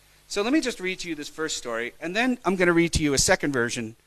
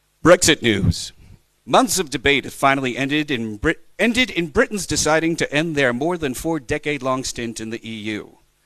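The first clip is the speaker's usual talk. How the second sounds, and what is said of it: Newsreader voice. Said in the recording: “put on my news voice for”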